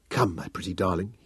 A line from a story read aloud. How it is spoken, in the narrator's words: he whispered